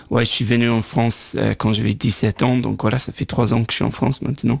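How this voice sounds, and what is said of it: Irish accent speaking French. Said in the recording (French): “Je viens de Dublin ... il a dit il faut garder l'accent.”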